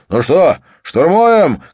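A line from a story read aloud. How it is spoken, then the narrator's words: Shout. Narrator (Russian): крикнул Хаген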